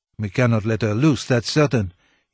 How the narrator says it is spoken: he muttered to himself

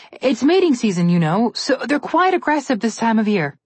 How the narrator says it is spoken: Alex called out

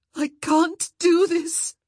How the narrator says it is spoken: she moaned, certain she would shatter

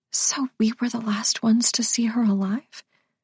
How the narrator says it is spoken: Marissa had whispered

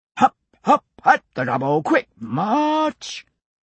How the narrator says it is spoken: A sergeant's bellow

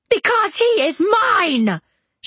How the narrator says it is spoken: She screamed it

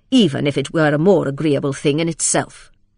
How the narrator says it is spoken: said Lydgate, speaking bitterly

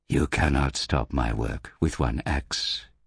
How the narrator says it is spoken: he whispered

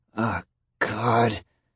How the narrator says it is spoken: John murmured

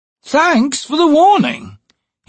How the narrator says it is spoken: snapped sarcastically

